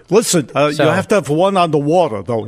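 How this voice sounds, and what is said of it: Imitates another person's voice. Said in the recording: “do a Bernie Sanders impression”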